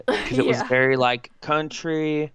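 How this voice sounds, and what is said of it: Put-on country Western accent. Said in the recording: “I just pulled out my Frontierland accent.”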